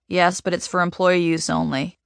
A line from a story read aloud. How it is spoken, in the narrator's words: Raccoon Eyes says in a monotone